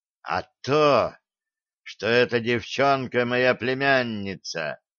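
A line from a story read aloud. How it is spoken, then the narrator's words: General hissing. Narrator (Russian): прошипел генерал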